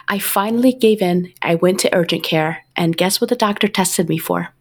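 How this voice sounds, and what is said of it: Sick voice from a cold. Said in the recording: “as everybody can tell from my voice, I've had a cold for like a month now.”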